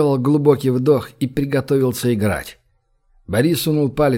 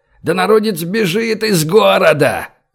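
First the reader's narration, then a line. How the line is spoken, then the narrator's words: Furious yell. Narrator (Russian): заорал, сжимая кулаки и наливаясь кровью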